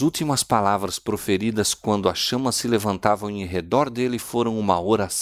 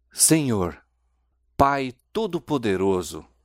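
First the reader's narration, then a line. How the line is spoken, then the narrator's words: Exclamation. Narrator (Portuguese): exclamou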